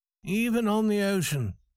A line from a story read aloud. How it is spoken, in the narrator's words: said Farrington sadly